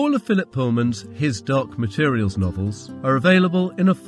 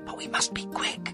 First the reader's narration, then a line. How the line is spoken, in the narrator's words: he whispered